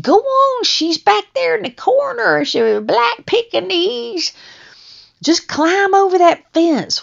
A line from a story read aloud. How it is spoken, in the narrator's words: the lady kept yelling from the back porch